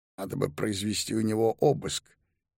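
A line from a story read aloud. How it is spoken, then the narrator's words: Quiet, close to ear. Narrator (Russian): тихо сказал рыжий фриц, наклоняясь к уху другого рыбака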